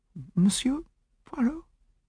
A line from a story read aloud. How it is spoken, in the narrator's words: she faltered